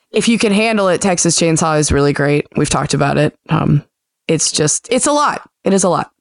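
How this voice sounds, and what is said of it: Strained, unwell-sounding voice. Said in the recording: “my voice is on the DL, as you can hear”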